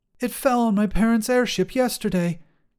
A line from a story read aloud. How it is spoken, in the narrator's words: she gasped